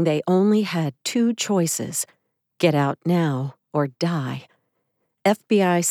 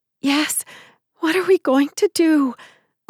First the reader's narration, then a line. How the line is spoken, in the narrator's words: Lisa replied in a shaky voice